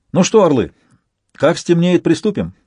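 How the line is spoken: Cheerful. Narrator (Russian): бодро проговорил Донцов

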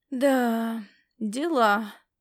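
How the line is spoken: Upset drawl. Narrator (Russian): протянул огорченный Ласло

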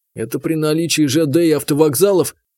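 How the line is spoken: Irritated snort. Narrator (Russian): Заур раздраженно фыркнул

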